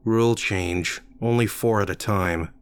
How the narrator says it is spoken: she said

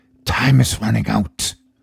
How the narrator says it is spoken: a voice inside your mind whispers

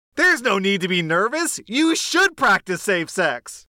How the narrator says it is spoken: said, rather loudly

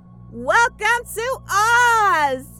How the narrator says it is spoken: She leaned in close to make sure I could hear and shouted

